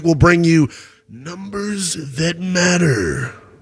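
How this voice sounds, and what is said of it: Deep booming announcer voice. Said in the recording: “That was my big voice guy impersonation.”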